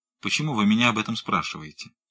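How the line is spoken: Cold question. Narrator (Russian): холодно спросил

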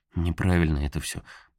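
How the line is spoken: Muttered. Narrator (Russian): пробормотал Карл

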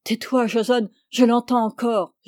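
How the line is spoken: Guard's pitiful moan. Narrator (French): gémit lamentablement le garde

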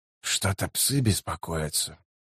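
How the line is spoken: Muttered. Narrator (Russian): пробормотал Котильон

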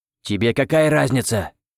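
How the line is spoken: Snapping sorcerer. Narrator (Russian): огрызнулся колдун

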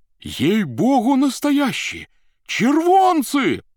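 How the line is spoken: Joyful shouting crowd. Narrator (Russian): кричали с галерки радостно

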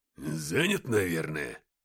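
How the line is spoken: Muttered. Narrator (Russian): пробормотал Уфимцев

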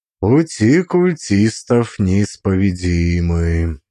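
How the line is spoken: Thoughtful remark. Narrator (Russian): заметил я задумчивым голосом

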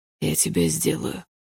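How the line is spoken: Muffled, hollow voice. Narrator (Russian): пообещал Лайм глухим голосом

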